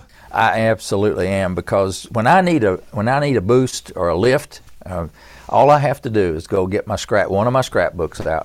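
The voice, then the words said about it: East Tennessee country accent. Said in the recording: “my East Tennessee country accent”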